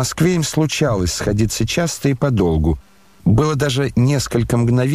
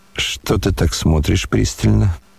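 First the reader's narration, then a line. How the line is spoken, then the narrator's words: Muttering. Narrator (Russian): пробормотал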